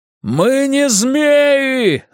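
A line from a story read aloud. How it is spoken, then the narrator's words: Booming yell inside helmet. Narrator (Russian): заорал он так, что собственный голос загудел у него под шлемом, словно внутри колокола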